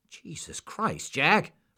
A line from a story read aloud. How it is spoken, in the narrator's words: Roy exclaimed